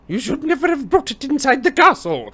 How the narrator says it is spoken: yelled Professor McGonagall

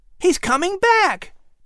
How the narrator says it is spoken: Patrick exclaimed

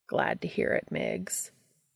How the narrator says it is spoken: Castiel said solemnly

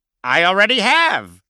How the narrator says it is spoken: without missing a beat, Stone chirpily replied

